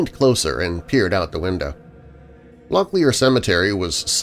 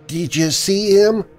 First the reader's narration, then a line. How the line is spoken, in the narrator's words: Rory asked nervously